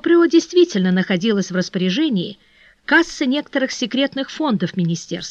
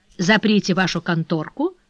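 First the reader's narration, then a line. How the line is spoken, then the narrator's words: Plain. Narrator (Russian): сказал Бопрео Фернану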